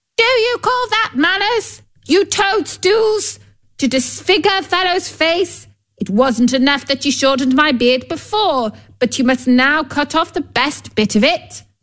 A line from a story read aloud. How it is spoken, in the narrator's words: He yelled to them